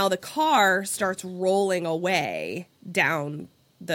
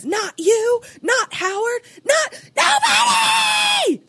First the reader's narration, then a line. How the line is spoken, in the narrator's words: Like screaming